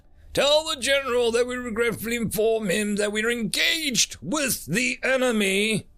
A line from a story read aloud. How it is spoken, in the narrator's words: Trucker yelled